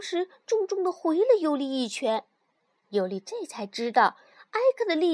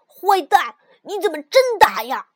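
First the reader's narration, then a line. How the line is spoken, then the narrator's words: Shouting loudly. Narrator (Chinese): 埃克大声嚷道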